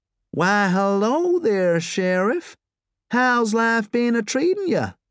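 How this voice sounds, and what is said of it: Broad Texan twang with Glaswegian edge. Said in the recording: “She spoke in a broad Texan twang by way of the sharp end of the gorbals.”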